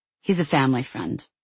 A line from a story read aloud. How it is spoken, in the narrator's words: said Alia